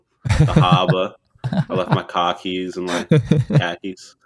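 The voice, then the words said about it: Mock Boston accent, dropped R's. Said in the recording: “Boston accent ... I can start going over my R's”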